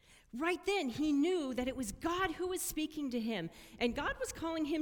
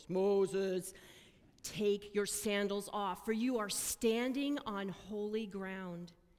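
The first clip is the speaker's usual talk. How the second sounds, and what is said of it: Deep booming voice of God. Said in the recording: “I think it's a really deep voice.”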